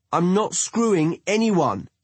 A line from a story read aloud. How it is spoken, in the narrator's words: East yells across the room, clearly hoping Ryan will hear him